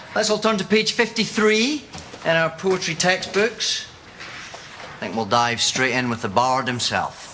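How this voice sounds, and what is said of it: Scottish accent. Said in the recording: “Are you English, sir? ... No, I'm Scottish. ... Sorry, are you talking Scottish now?”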